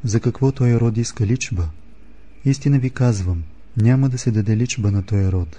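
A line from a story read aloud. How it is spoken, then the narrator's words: Deep sigh. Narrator (Bulgarian): той въздъхна дълбоко и рече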